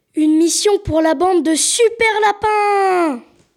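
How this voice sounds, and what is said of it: Cartoon character voice. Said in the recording (French): “faire la voix de Sam Sam”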